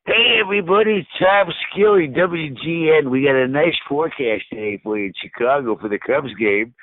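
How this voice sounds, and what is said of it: Imitates another person's voice. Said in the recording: “I do your impression of you.”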